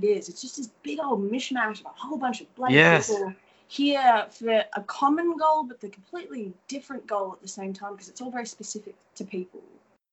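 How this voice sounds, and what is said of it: Australian accent. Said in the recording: “this Australian accent ... me thinking my accent's quite goofy”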